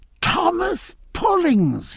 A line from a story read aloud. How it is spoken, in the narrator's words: he cried, with a look of real pleasure